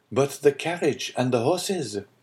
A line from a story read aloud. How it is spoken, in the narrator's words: said Franz